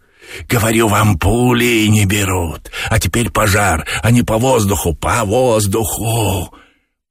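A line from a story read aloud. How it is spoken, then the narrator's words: Hissing. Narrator (Russian): Боба шипел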